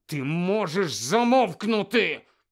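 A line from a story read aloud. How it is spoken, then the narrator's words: Hissed. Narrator (Ukrainian): прошипів Гаррі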